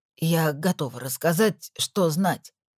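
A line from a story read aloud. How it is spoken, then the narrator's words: Hoarse, accented, ungrammatical. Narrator (Russian): хрипло, с акцентом и не в том падеже сказала она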